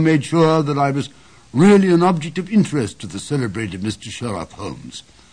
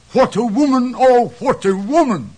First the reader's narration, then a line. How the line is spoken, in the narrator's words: cried the King of Bohemia